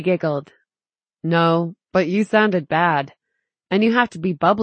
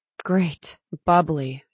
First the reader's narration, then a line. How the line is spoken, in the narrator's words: Tally sighed